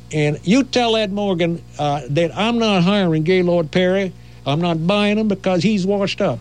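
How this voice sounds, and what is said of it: Quoted speech in southern accent. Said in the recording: “He had that kind of southern accent.”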